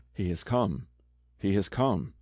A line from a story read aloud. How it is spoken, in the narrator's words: a voice whispering in his ear